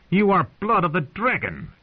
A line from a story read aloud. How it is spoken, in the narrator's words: he had screamed at her